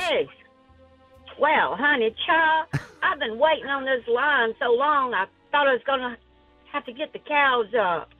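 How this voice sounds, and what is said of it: Old-school Atlanta Southern accent. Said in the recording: “the best Southern accent is the Georgia ... almost a Savannah-esque kind of accent ... old school Atlanta accent ... Kind of like a Driving Miss Daisy”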